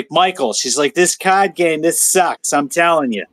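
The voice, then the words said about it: Imitated New York accent. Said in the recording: “she's got this New York voice accent.”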